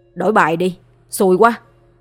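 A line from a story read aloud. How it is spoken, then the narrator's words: Irritated, loud. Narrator (Vietnamese): Bị thua liên tiếp mấy ván nên Đăng Khoa có phần hơi cáo mà lớn tiếng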